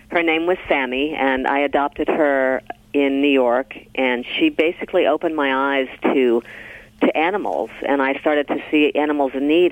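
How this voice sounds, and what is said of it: Scratchy, slightly rough voice. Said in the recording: “My voice is a little scratchy ... I haven't had much sleep, so I sound a little scratchy today”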